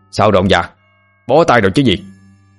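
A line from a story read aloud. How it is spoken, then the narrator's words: Shouting. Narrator (Vietnamese): Ông thầy cai lạy và người nhà đuổi tà quát lên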